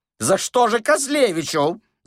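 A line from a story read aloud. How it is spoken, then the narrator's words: Squealing. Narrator (Russian): завизжал Паниковский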